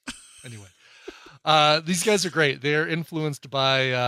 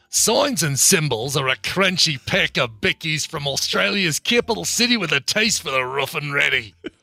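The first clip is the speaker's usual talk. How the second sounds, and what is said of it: Put-on Australian accent. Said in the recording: “I've got to do it in an Australian accent.”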